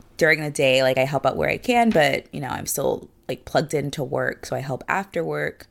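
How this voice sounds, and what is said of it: Tired, congested, snuffly voice. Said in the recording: “I sound kind of tired... I'm kind of congested... I'm a little bit congested because, like, the air is very dry... if I sound kind of like... a snuffleupagus. Do they sound snuffy?”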